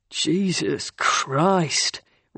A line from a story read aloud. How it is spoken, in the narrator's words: Ryan muttered under his breath